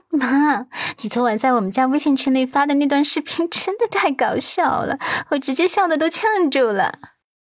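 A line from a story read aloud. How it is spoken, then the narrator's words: Laughing, teasing. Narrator (Chinese): 他笑道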